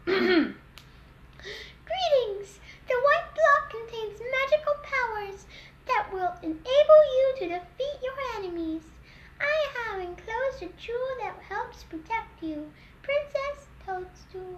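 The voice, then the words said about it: Princess character voice. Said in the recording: “in my peach voice”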